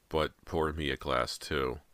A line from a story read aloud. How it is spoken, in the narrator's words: she groaned